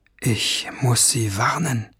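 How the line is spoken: Murmuring. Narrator (German): murmelte er

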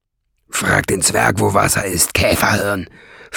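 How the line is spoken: Hissing. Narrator (German): fauchte Nesselbrand

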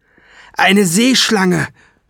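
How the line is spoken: Shouted. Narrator (German): schrie Ben

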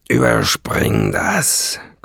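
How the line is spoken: Growl. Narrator (German): knurrte Nesselbrand

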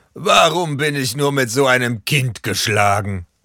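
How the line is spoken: Exclaiming. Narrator (German): ruft Bob

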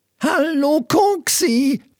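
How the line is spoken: Skeleton's croak. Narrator (German): krächzte ein Gerippe

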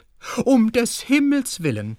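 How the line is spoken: Calling out. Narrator (German): rief Tante Julchen

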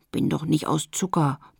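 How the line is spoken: Grumbling. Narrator (German): brummte Lotte

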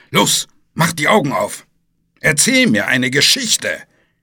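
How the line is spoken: Snapping monster. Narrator (German): schnauzte das Monster

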